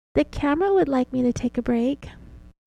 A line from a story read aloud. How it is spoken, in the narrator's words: she said in her very childish voice